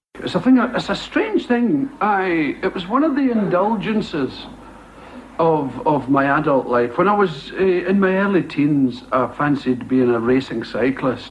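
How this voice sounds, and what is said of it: Scottish accent. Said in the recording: “you can hear the Scottish accent there ... it sounds like I go out on my bake”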